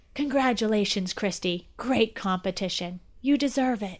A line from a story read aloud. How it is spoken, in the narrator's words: whispered